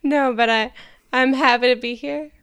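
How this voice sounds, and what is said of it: Sultry, therapist-like soft tone. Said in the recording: “talking like a therapist ... Just a sultry tone, like on Frasier ... sultry vibe”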